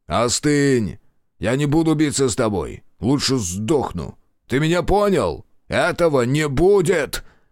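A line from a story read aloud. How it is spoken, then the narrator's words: Yelled in someone's face. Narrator (Russian): Заорал он Кроу в лицо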